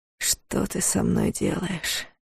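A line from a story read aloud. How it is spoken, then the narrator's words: Hoarse whisper. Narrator (Russian): хрипло прошептал Дарс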